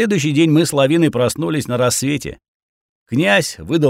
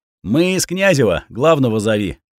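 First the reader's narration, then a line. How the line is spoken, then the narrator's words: Commanding tone. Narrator (Russian): приказным тоном велел я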